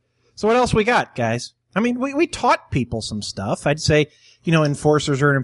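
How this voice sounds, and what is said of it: Usual voice. Nothing is said of it.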